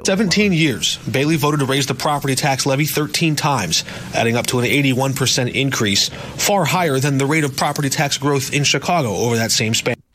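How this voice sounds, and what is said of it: Nice smooth radio announcer voice. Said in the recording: “That guy had a nice voice. He's a good radio voice.”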